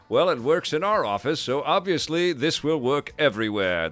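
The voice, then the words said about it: Mocking impression of a stereotyped publisher. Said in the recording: “my stupid publisher impression”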